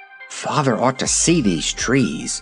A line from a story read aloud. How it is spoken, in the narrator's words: she murmured